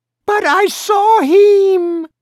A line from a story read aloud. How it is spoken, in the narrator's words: the mother screamed